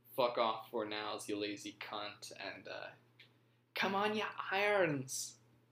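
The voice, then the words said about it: Failed British accent, sounding slightly Irish. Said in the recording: “I cannot do a British accent ... That was a little Irish.”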